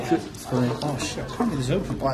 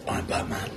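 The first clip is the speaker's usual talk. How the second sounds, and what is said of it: Gravelly Batman character voice. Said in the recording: “your best Batman impression ... That's actually pretty good.”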